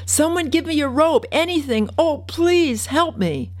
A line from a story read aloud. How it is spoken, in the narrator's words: Another voice screamed